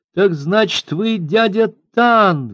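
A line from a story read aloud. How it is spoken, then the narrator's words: Exclaiming. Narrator (Russian): воскликнула она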